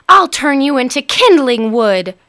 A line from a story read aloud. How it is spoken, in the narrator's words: cried Helga